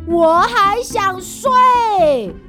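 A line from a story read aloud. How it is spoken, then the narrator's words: Shouting. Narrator (Chinese): 国王大叫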